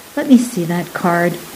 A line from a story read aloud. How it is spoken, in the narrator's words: he interrupted softly